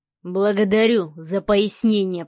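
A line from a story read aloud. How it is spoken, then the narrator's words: Growled. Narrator (Russian): прорычал Савелий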